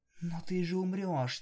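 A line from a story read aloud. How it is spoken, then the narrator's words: Quiet. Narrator (Russian): тихо сказала Мармеладка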